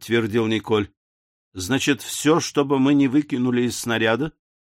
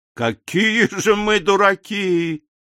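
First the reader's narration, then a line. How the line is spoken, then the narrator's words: Exclamation. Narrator (Russian): воскликнул Мишель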